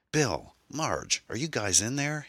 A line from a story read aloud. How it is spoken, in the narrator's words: he shouted